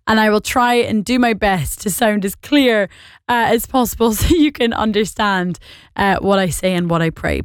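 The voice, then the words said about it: Scottish and Northern Irish accent. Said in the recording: “I am Scottish and Northern Irish, so if this accent is bewildering to you”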